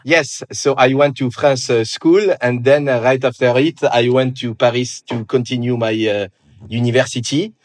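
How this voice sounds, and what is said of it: Parisian French accent. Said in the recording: “movie-like, for lack of a better word, sexy Parisian French accent ... I could get a strong French accent”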